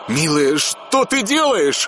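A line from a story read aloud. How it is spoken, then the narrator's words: Anguished shout. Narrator (Russian): С мукой в голосе закричал он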